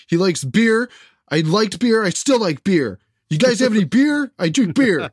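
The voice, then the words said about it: Imitates another person's voice. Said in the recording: “That's Kavanaugh. That's my impression of Kavanaugh at a party.”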